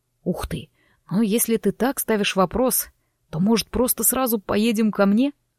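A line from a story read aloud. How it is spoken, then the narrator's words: Intimate breathy, very close. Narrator (Russian): выдохнул мне слова чуть ли не в губы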